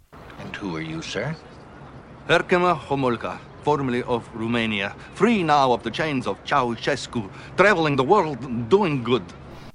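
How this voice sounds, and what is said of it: Tim Curry's terrible fake Romanian accent. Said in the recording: “Tim Curry ... this accent is ungodly terrible ... the accent is pretty awful ... He's got to be Romanian or something.”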